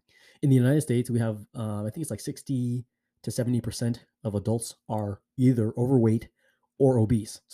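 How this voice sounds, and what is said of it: American accent. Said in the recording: “So currently I'm in the US. You can probably tell from my accent”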